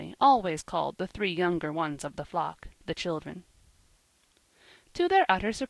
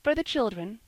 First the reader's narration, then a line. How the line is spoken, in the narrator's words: they added timidly